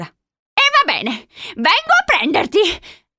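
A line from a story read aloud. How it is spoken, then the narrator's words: Panting. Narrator (Italian): ansimò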